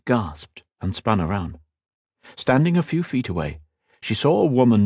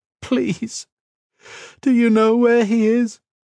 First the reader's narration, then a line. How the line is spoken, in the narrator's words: sobbed